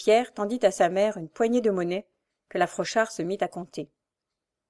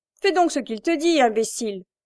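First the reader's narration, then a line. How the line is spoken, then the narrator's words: Grumbling. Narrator (French): grommela-t-elle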